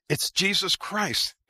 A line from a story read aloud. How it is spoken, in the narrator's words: replied